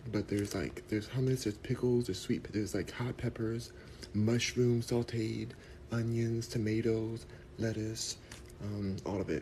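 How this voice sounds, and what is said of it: Whispering. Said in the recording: “why are you whispering? I'm whispering ... So I'm trying to whisper”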